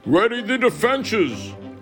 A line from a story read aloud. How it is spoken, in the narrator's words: Arthur cries out, commanding